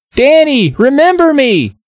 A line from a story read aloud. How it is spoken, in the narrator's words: Hannah cried